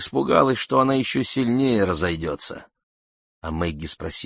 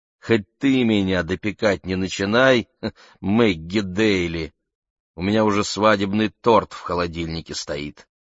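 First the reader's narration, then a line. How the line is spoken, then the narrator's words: Laughing. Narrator (Russian): хохотнула и сказала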